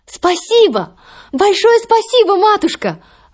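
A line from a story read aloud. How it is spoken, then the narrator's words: Exclaimed. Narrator (Russian): Воскликнула Золушка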